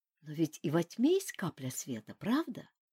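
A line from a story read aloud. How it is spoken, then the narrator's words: Gentle, smiling. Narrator (Russian): Глин мягко улыбнулся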